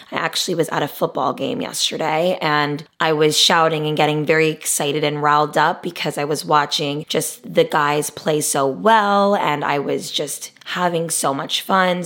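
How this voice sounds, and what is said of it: Hoarse, strained voice. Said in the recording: “I must start off today's episode with a big apology. I lose my voice quite often.”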